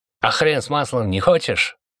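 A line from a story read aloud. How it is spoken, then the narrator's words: Angry retort. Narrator (Russian): зло отозвался один из охранников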